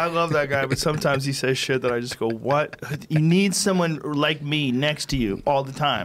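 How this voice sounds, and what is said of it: Usual voice. Nothing is said of it.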